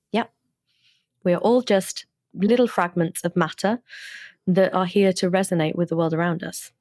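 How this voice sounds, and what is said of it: British accent. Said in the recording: “best British accent I've had on the show in I don't know how long”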